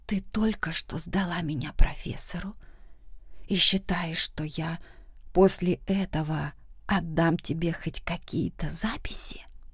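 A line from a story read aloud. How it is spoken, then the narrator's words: Icy whisper. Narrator (Russian): Мой голос был настолько ледяным, что мог заморозить вулкан, хотя слова были произнесены шепотом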